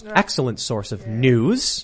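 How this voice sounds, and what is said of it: Sarcastic delivery. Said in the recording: “I'm being sarcastic”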